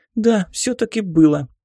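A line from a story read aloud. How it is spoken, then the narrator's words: Sudden shriek, little girl. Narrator (Russian): неожиданно взвизгнула мелкая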